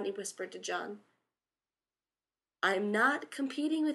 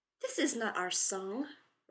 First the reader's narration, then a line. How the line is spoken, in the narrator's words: Rodney snapped